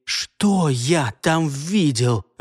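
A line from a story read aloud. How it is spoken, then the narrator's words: Furious through clenched teeth. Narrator (Russian): выдавил сквозь зубы с яростью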